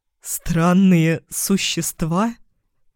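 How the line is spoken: Forced out between laughs. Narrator (Russian): выдавил Каэлан между приступами смеха

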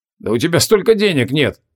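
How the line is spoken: Tactless snort. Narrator (Russian): бестактно хмыкнул Креол

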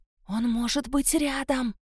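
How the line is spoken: Whisper. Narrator (Russian): сказала Марго шепотом

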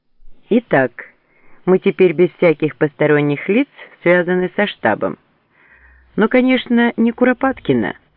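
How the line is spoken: Cheerful laughter. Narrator (Russian): весело засмеялся Фок

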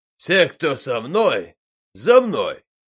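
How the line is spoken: Shout. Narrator (Russian): крикнул Бурцев

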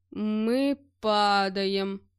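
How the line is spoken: Groaning. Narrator (Russian): простонал я

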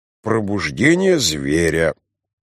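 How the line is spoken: Sleepy, smiling. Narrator (Russian): сказал Драйер, сонно улыбаясь

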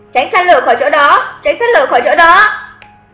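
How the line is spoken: Repeated frightened shouting. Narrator (Vietnamese): Lực thực hành mặt trắng bệch liên tục hét

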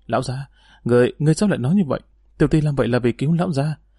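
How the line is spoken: Confused stammer. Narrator (Vietnamese): Cao Văn Tâm không biết y nhắc đến chuyện này để làm gì thì không khỏi lắp bắp nói

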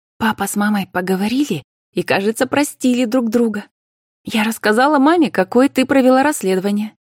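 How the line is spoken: Brief, cheerful report. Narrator (Russian): коротко и по существу радостно докладывала Карина

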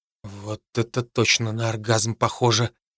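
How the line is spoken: Barely moving whisper. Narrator (Russian): прошептал я, еле шевеля губами

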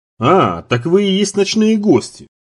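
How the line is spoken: Exclaiming old man. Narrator (Russian): воскликнул старик

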